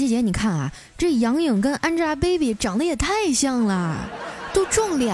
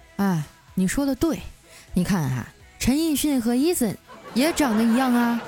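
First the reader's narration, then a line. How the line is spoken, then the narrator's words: Flat, indifferent. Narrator (Chinese): 我淡淡的说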